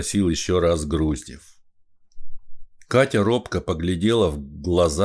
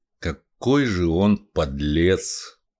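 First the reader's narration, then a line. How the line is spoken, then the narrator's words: Indignant grumble. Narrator (Russian): проворчал Груздев, негодуя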